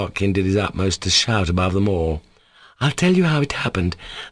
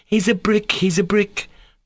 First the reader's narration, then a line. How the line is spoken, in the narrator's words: cried the other boys